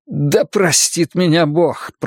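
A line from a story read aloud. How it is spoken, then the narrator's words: Groaning. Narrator (Russian): простонал Пик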